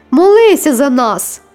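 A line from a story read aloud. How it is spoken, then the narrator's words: Shrieking. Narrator (Ukrainian): Дехто верещав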